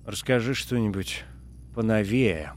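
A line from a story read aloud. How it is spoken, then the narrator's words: Groaned. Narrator (Russian): простонал Джордж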